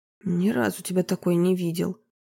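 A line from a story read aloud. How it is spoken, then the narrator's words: Muttering. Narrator (Russian): пробормотал саксофонист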